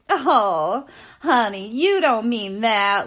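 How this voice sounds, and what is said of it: Put-on Southern accent. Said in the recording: “she's got this like southern accent.”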